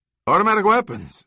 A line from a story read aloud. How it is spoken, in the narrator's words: Zavala yelped